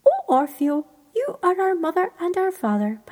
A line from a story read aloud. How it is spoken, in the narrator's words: piped Queen Bee